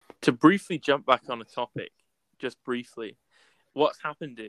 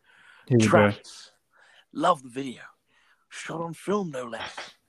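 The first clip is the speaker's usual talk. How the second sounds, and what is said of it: Imitates another person's voice, poorly. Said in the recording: “do it in my Nolan voice, which is really bad as well ... It sounded like David Attenborough.”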